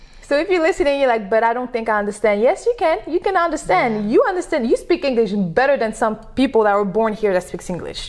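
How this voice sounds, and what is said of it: Non-native English accent, slightly southern. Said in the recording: “I have an accent and English is my second language ... you talk about all that data stuff with your accent ... You got a little southern in there”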